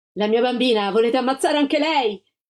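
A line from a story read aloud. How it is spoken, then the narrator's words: Shouted. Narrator (Italian): La Gilda gridò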